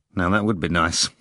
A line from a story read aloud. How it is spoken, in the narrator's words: Rimsky said barely audibly through his teeth